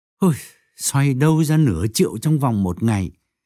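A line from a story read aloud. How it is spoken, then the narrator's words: Sighing lament. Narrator (Vietnamese): Tấn thở dài than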